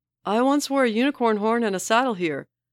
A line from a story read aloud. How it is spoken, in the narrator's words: he yells